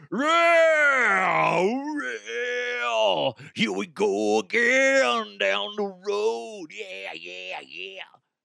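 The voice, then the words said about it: Mock rock singer voice. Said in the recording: “my rock impression”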